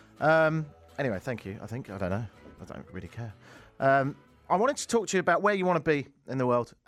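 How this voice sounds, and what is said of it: English accent, stronger than usual. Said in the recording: “you sound more British than usual ... it's English”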